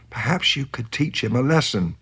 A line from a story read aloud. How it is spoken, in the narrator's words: smiled and whispered